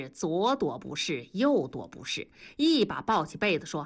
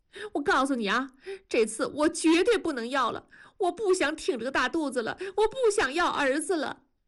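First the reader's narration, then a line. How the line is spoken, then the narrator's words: Crying. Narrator (Chinese): 文丽哭着说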